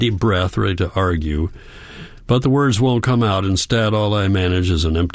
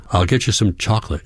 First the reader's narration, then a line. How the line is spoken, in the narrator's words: she says